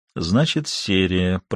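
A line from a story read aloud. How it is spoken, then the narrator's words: Muttered from behind. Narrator (Russian): пробормотал Верну у них за спиной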